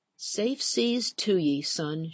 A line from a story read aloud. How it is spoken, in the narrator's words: whispered, pushing back her tears